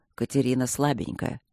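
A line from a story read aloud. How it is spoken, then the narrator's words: Calm objection from behind. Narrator (Russian): спокойно возразил Свидерский ему в спину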